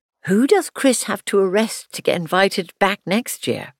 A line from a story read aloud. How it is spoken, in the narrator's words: Andrew Everton laughs